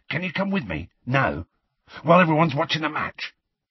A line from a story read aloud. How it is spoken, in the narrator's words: he whispered